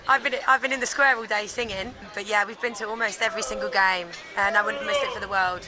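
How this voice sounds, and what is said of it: Hoarse, nearly lost voice. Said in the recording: “my voice is gone ... Because too much singing.”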